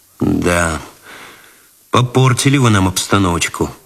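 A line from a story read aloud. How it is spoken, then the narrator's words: Sighing. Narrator (Russian): вздохнул Цветков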